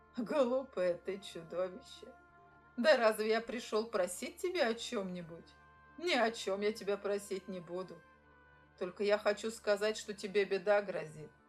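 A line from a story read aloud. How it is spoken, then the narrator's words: Laughing. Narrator (Russian): Засмеялся человек и говорит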